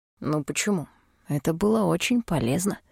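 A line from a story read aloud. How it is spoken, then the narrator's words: Whispered. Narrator (Russian): шепнул он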